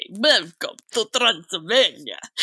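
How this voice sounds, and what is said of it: Put-on Transylvanian vampire accent. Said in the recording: “That's my accent. ... Move over, Gary Oldman.”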